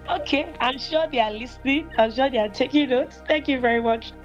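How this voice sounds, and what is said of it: Rough, cracked, worn-out voice. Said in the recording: “you can hear this voice that sounded like that of an Agbero when you attend the camp ... I crack my voice or I lose my voice completely”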